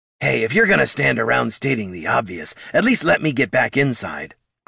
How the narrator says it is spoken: growled the kobold

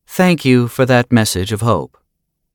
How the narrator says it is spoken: Reagan said evenly

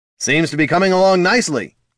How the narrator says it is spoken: the paladin yelled

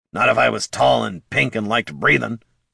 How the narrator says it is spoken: Bert growled

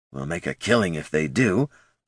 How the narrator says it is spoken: Goldson muttered to himself

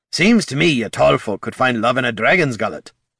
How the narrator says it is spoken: Gorm grumbled

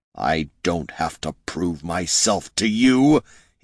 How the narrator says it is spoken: he snarled, struggling in her grip

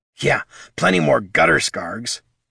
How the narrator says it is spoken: grumbled Bert

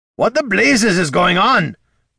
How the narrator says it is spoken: Gorm roared

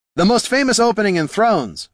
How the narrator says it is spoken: Heraldin hollered back

